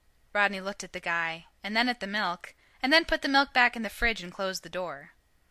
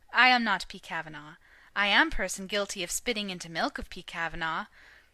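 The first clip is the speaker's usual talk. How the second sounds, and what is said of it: Soft voice, thick foreign accent. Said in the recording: “softly in a thick accent”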